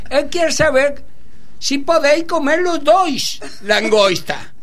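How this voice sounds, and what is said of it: Shouted put-on foreign accent. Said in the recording (Spanish): “cuando grito, en inglés o en francés ... el acento viene bien”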